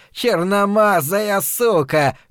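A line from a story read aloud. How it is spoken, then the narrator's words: Shout. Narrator (Russian): крикнул он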